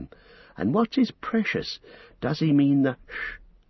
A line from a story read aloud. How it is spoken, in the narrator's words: breathed Frodo